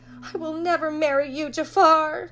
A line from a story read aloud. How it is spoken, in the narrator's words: cried Jasmine